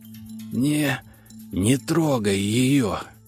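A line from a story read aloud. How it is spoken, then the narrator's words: Through gritted teeth, pained. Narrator (Russian): Процедил сквозь зубы, с трудом вытащив клинок из ладони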